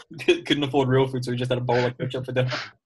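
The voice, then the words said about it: Attempted Brummy accent sounding Liverpudlian. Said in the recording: “Why are you all going fucking Liverpudlian when you're trying to do a Brummy accent? It's the opposite end of the scale.”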